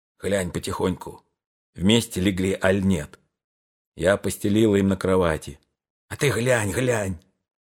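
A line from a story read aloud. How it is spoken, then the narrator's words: Whispered. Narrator (Russian): Пантелей Прокофьевич шептал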